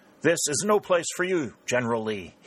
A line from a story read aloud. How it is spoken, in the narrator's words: he cried